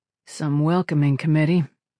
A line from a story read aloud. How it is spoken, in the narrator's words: Falcone said dryly